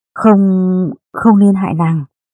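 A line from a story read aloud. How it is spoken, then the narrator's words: Panicked trembling voice. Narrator (Vietnamese): Lê Văn hoảng kinh, nó nói bằng giọng run run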